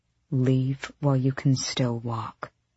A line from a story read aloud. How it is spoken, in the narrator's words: Sorrel said softly